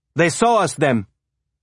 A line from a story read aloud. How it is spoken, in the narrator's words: Bastian shouted